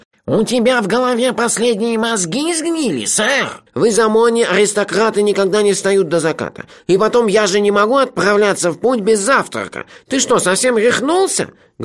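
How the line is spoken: Nasal indignant complaint. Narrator (Russian): Гнусаво возмущался Рулен Багдасыс

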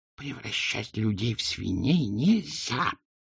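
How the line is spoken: Hissing. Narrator (Russian): прошипела она

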